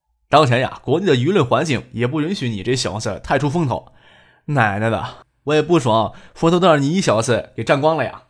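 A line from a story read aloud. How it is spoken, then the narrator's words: Joking. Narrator (Chinese): 姚文胜又开玩笑说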